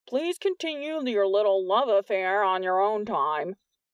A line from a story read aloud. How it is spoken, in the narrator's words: Urbanek called loudly